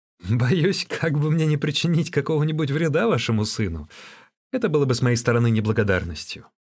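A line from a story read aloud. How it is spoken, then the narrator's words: Still laughing. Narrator (Russian): Все еще продолжая смеяться, Ван Цзинь произнес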